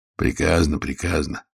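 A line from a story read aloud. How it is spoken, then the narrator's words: Grumble. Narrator (Russian): проворчал он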